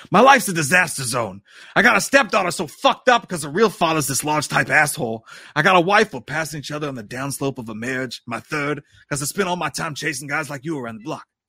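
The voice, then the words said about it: Poor imitation of another person's voice. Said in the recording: “terrible Pacino impression”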